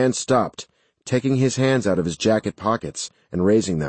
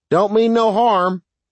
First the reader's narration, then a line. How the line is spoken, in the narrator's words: he shouted